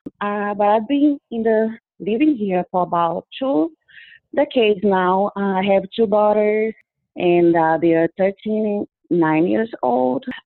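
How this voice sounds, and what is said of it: Brazilian accent in English. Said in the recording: “I am originally from Brazil. You probably noticed a lot of accent in my speech.”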